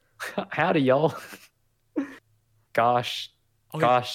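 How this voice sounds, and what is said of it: Put-on Texan accent. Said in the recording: “automatically start speaking like a Texan.”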